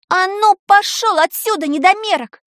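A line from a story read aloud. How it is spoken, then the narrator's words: Shouting. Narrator (Russian): крикнула она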